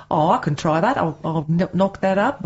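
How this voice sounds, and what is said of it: Put-on Australian accent. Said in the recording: “back to the Transylvanian accent ... No, that was my Rolf Harris accent”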